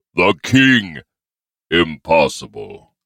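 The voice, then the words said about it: Overly deep character voice. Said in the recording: “a too deep voice”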